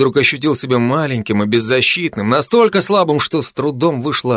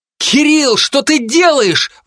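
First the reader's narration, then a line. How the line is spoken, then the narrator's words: Sudden distant yell. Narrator (Russian): Вдруг завопили откуда-то издалека, будто из небытия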